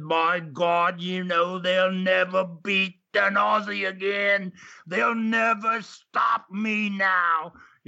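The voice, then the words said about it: Australian accent impression of George Barnes. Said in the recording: “that Aussie accent said”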